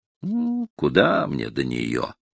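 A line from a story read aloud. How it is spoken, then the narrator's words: Sighing. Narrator (Russian): вздохнул я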